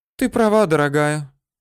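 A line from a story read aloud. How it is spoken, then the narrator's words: Wistful sad sigh. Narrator (Russian): Обе дамы грустно вздохнули, сожалея, что сами давно таких романов не переживали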